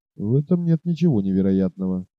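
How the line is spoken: Quiet and thoughtful. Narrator (Russian): тихо и раздумчиво проговорил Сиген

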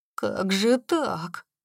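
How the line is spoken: Muttering. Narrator (Russian): пробормотал он

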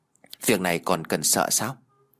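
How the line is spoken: Sighing. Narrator (Vietnamese): Lạc Văn Chu thở dài

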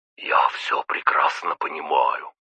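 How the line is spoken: Whisper. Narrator (Russian): прошептал Виктор Павлович

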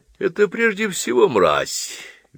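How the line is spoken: Cheerful clarification. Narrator (Russian): весело уточнил Палисадов

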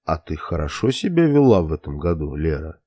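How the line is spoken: Young man purring. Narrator (Russian): Промурлыкал парень

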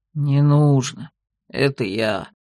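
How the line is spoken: Deep bass voice. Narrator (Russian): Басом отозвалась распластанная у камина медвежья шкура

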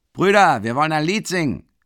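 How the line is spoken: Shout from wagon. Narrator (German): ruft jemand vom Wagen

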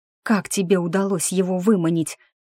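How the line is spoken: Shocked breathless exclamation. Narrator (Russian): потрясенно выдохнула я Харду

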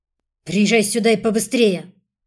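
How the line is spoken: Loud bark. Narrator (Russian): Владимир Степанович так это гаркнул, что даже мне удалось разобрать

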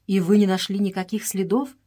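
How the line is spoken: Plain. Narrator (Russian): спросил Эдуард

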